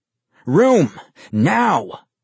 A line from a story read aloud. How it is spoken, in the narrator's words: Vincent growled